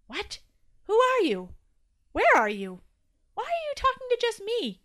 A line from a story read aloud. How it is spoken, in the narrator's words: gasped Toby, now more than a little panicked